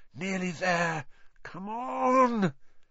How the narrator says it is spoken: The engine groaned

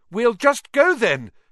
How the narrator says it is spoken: Harry called desperately to Aragog

